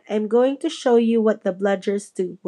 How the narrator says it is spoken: Wood said

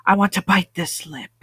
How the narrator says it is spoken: he murmurs against my mouth

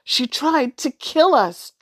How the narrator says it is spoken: Drew shouted

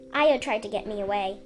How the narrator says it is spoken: Blue said

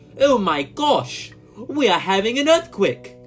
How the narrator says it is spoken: said in a shocked voice

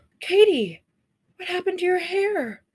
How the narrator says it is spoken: Mom gasping

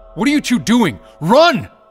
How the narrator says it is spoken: Grog yelled to the two men

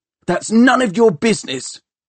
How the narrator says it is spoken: shouted Tom angrily

